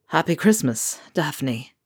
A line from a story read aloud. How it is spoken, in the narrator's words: Ron said, his voice hoarse